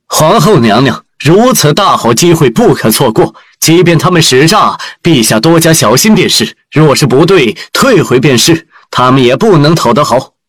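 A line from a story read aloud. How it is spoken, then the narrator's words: Raised, displeased interruption. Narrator (Chinese): 官员们不满起来，有人提高声音打断花千婉的话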